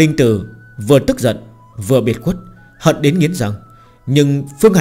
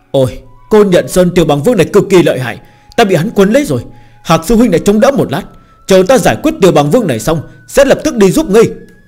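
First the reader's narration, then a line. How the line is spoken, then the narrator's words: Laughing exclamation. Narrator (Vietnamese): Lệ Hồng Y nở nụ cười kêu lên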